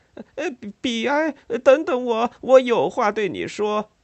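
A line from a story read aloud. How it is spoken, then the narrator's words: Loud call. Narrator (Chinese): 他便大声叫他的名字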